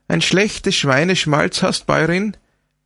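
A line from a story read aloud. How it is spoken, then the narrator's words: Cheeky exclamation. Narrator (German): rief sie kecklich aus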